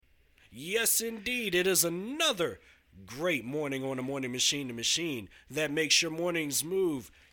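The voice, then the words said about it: Slightly hoarse voice. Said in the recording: “I sound a little hoarse this morning”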